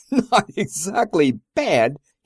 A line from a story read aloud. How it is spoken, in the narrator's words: he boomed between laughs